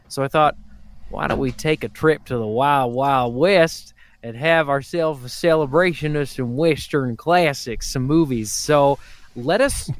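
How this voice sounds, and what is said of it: Weird put-on Southern Texas accent. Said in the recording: “What was that accent ... like a weird Savannah, Texas thing”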